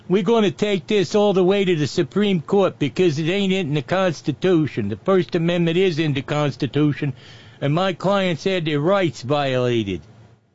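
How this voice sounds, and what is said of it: Put-on accent quoting a lawyer. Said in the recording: “Nah, wrong accent.”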